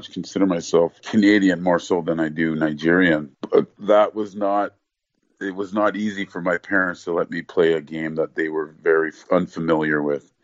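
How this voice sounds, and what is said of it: Canadian Ontario accent. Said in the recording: “I have a very much Canadian Ontario accent.”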